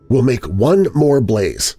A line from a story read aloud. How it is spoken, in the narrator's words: I said firmly